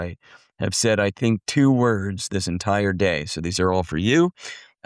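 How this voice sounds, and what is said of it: Rough, strained voice. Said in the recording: “apologies for my voice if it's a little rough this morning. I started losing my voice yesterday”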